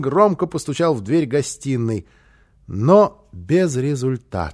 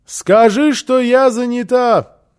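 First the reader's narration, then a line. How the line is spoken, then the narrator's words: Shouting through closed door. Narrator (Russian): крикнула в ответ Фрёкенбок из-за закрытой двери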